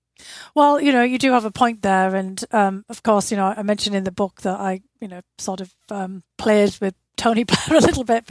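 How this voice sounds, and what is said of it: Northeast English Durham accent. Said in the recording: “recognising your accent, because you are from Durham in northeast England ... I've never heard somebody with your accent”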